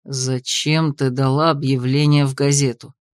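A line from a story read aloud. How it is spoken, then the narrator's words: Sarcastic grumble. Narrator (Russian): Буркнул Грей, причем таким тоном, будто иначе союз остался бы тайной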